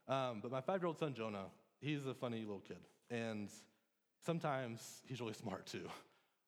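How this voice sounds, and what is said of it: Emotional, choked-up voice. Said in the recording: “I don't know why I'm getting emotional about this”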